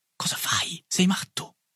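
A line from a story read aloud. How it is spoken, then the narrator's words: Whisper to deskmate. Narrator (Italian): mi sussurrò Boulanger, che era mio compagno di banco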